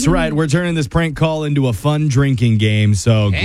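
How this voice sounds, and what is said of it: Usual voice. Nothing is said of it.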